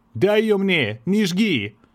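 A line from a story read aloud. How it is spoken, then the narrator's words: Young man shouting. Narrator (Russian): рабочий паренек индейского типа, крикнул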